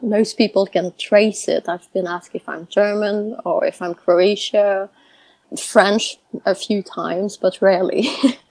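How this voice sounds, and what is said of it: Noticeable foreign accent. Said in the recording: “as you can hear, I have quite an accent.”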